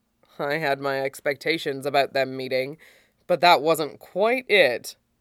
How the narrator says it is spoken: admits dryly

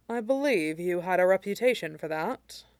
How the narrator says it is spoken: Tincture said dryly

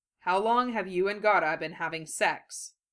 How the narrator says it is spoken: Ibiki asked calmly

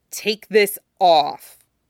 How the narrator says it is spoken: Peter growled, voice brooking no argument

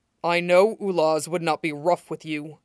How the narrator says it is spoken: Kolovan growled down, letting his breath puff hot and wet against Shiro's ear

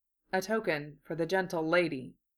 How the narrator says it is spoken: Kenobi murmured

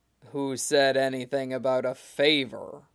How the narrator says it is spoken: Katakuri rumbled

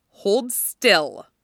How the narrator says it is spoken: she grunted at him

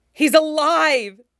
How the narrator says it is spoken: he shouts, nearly sobbing with it

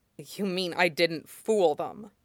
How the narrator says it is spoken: Zuko said grimly

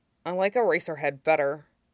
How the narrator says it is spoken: Shinzo mumbled

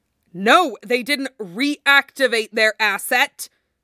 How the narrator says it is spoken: Coulson snarled

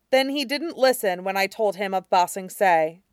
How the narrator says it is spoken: Kuei said firmly

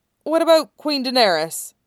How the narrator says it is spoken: Tyrion asked hesitantly

